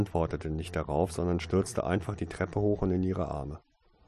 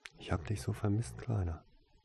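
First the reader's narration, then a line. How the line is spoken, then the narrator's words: Whispering in ear. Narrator (German): flüsterte sie in sein Ohr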